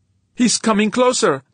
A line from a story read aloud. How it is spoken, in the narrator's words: Nodan shouted